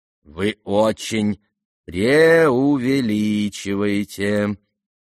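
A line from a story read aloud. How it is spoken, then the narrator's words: Bored, embarrassed drawl. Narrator (Russian): протянул Иван Петрович с некоторой скукой и даже как будто чего-то совестись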